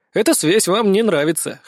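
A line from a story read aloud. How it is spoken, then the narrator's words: Smirking grunt. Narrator (Russian): хмыкнул я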